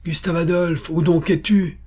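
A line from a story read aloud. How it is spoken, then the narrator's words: Exclaimed. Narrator (French): s'écria Pappenheim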